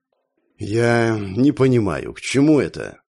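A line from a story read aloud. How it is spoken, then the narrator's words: Tired. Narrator (Russian): устало произнес второй после султана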